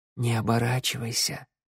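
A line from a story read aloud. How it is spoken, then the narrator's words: Whisper from behind. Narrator (Russian): прошептала она за спиной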